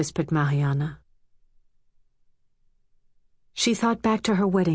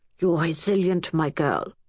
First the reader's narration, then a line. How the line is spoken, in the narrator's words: he had said in a strained voice, weak from cancer